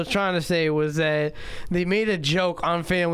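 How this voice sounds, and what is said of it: Usual voice. Nothing is said of it.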